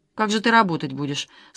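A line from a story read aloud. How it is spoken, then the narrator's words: Plain question. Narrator (Russian): спросила Лада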